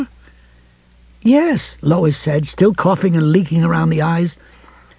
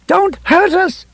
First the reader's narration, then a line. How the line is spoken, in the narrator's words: she cried